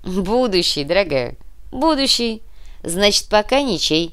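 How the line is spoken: Laughing. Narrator (Russian): рассмеялся Руслан

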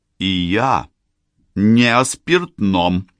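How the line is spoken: Steely voice. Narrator (Russian): стальным голосом продолжала его невеста

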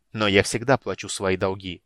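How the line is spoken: Sharp. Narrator (Russian): резко сказал Рейслин

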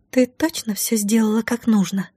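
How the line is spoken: Whisper. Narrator (Russian): шептала одна из них

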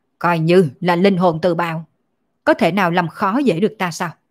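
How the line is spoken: Loud shout, coughing blood. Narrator (Vietnamese): Thánh quân quát to một tiếng, phun ra một ngụm máu tươi, quát lên nói

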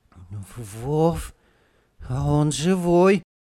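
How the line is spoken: Sudden plaintive. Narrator (Russian): вдруг жалобно сказал Петька

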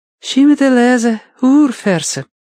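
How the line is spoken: Young woman, soft objection. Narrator (Russian): мягко возразила молодая

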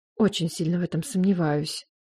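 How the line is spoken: Muttering. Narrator (Russian): пробормотала я

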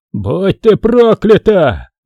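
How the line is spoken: Roared. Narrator (Russian): взревел Тодд

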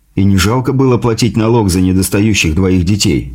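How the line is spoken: Scoffing. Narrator (Russian): хмыкнул я

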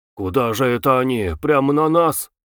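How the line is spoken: Thin man grumbling. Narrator (Russian): проворчал тощий человек впереди Клима

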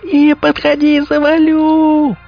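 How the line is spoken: Shrill squeal. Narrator (Russian): завизжал

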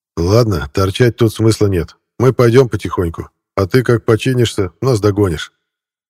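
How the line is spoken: Loud. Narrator (Russian): громко сказал в адрес водителя Шурик

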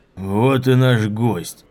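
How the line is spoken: Booming joyful voice. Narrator (Russian): прогремел зычный радостный голос

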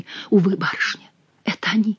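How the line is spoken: Sad whisper. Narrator (Russian): прошептала бедная девушка

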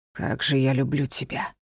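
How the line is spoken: Whisper. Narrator (Russian): прошептал

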